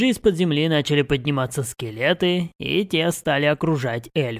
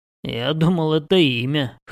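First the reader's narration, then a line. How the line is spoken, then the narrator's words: Wry snort. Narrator (Russian): хмыкнул я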